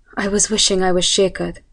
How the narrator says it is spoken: sighed as I replied

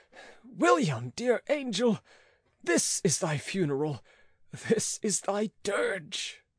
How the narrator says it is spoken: exclaimed aloud

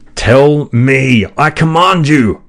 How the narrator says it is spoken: I cried

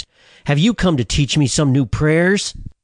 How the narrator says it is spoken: I sneered

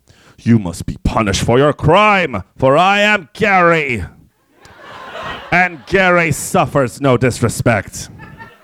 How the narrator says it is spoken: the voice boomed

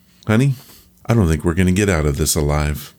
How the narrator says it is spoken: He calmly said

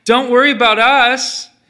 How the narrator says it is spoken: she called out

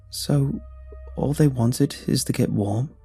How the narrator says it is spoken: I asked, hesitantly

